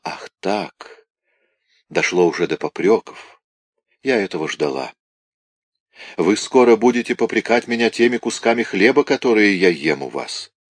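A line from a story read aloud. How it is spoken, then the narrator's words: Quiet. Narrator (Russian): тихо сказала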